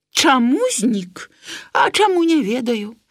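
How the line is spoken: Sighing again. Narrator (Belarusian): Зноў уздыхнуў карась

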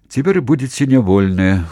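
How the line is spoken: Sighing merchant. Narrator (Belarusian): уздыхнуў купец

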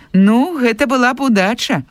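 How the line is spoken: Smiling. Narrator (Belarusian): усміхнуўся настаўнік

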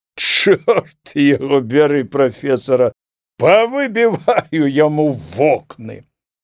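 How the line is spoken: Laughing, muttering to himself. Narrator (Belarusian): засмяяўся і прамовіў сам з сабе

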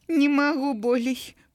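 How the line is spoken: Groaning. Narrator (Belarusian): прыстагнала Ніна

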